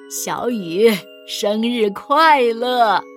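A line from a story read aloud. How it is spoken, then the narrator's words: Smiling grandfather. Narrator (Chinese): 爷爷笑眯眯地说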